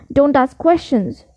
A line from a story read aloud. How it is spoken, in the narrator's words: snapped his uncle